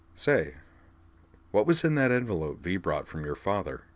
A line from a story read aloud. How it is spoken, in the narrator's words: Liza laughed, a high, clear sound of pure merriment